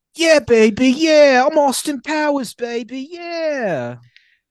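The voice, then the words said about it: Austin Powers impression. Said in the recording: “Okay, I'm going to do an impression, too. ... Okay, go ahead, do an impression.”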